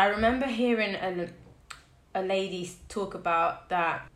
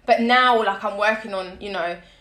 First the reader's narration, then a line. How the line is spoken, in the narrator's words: I shout